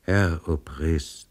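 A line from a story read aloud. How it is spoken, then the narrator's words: Very quiet reply. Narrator (German): erwiderte der Pristav sehr leise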